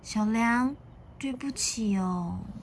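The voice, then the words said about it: Quiet, soft-spoken child's apology. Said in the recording (Chinese): “小光很小声的说”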